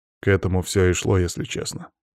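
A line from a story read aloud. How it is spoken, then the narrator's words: Grim statement. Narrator (Russian): мрачно констатировал Иван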